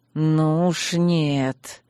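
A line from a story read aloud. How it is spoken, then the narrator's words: Harsh, through gritted teeth. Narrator (Russian): жестко процедил он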